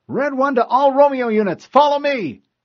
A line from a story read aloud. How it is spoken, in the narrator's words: McKay yelled into her mic